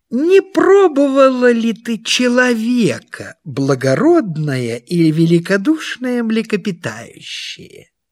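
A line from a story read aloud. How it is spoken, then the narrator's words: Small sly voice. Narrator (Russian): И маленькая хитрая рыбка сказала ему маленьким хитреньким голосом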